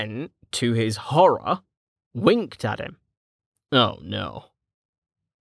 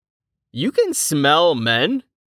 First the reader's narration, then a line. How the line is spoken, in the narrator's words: Velika laughed